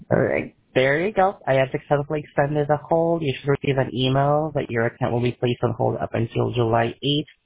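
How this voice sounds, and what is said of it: Filipino accent. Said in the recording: “I'm calling from the Philippines... Maybe with my accent”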